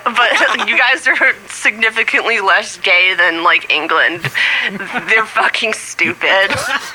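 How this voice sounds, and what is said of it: British accent. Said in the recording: “the Australian guy had a British accent”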